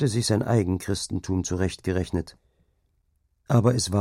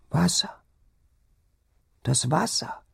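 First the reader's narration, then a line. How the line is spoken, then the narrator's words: Sick woman whimpering. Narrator (German): wimmerte die Kranke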